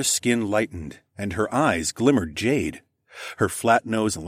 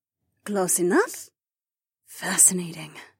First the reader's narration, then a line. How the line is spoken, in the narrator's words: Taslin murmured